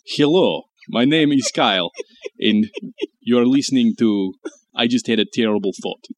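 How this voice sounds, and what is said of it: Poor put-on Russian accent. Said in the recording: “I'll pretend to do a Russian accent, but I don't really know how to do that... It's awful, though. It's not good.”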